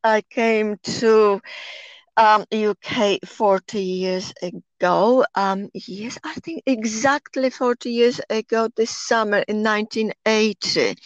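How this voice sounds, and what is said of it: Polish accent. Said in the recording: “my accent, of course, I am Polish.”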